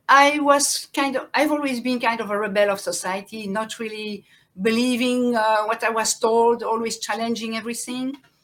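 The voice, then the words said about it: French accent in English. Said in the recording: “French is my native language. I'm sure you can hear my accent.”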